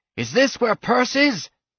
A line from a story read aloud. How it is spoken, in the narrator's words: The captain did not dare look down, and over the screaming he said